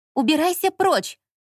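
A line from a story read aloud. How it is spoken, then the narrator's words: Exclaiming. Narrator (Russian): воскликнула она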